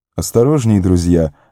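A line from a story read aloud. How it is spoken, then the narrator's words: Laughing. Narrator (Russian): рассмеялся Гилдор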